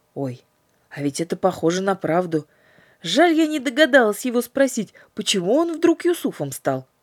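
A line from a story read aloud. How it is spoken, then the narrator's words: Exclamation. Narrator (Russian): воскликнула Катя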